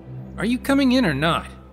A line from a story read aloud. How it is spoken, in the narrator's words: Mito demanded impatiently